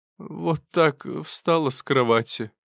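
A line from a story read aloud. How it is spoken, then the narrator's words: Sighing. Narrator (Russian): вздохнула Мария Семеновна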